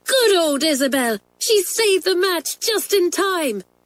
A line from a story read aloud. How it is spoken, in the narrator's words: cried Pat